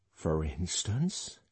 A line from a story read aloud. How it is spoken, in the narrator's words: she hoarsely whispered